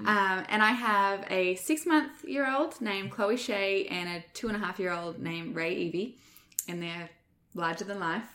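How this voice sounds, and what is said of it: Australian accent. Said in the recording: “She's got that fabulous Australian accent.”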